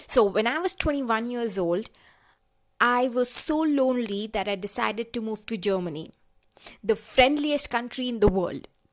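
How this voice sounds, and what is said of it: Indian English accent. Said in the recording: “this is my actual accent. I am from India and this is how I talk.”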